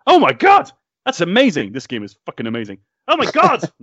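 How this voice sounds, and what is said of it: Good impression of an excited gamer. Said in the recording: “That was a surprisingly good impression as well.”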